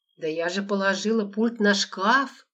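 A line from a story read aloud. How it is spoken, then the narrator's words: Groaning. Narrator (Russian): простонала Лола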